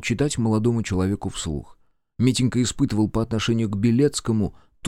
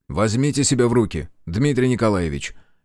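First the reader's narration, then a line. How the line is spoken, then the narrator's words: Sharp shout. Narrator (Russian): резко прикрикнул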